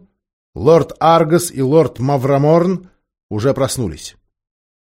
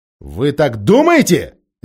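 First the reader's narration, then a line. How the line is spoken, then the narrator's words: Sharp question. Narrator (Russian): резко спросил Каспиан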